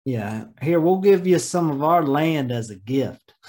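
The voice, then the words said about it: Put-on Texas accent. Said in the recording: “be careful now with that accent. I think we have some listeners from Texas.”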